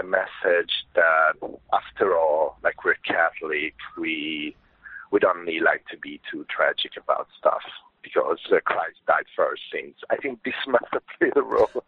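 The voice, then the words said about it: Italian accent. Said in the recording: “He's based in Italy, as you can hear from what legitimately is a very nice accent.”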